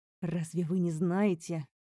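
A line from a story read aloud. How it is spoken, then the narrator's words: Growl. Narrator (Russian): прорычал князь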